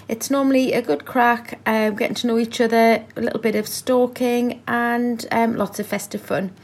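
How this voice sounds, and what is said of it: Geordie accent. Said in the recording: “Geordie girl, Geordie Santa. ... Love that accent”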